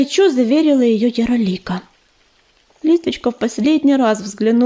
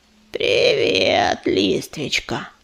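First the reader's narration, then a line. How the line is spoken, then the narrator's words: Creaky voice. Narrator (Russian): проскрипел Корявый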